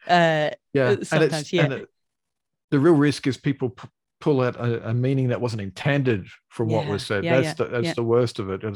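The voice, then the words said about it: Australian accent. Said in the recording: “I've got an Australian accent. I'm Australian.”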